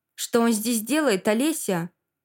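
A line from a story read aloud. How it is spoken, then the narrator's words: Very angry. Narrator (Russian): так злобно со мной Руслан не говорил никогда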